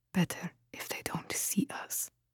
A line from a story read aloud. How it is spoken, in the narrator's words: whispered